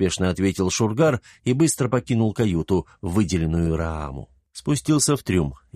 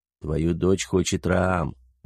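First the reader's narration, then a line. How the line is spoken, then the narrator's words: Quiet informing. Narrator (Russian): негромко сообщил он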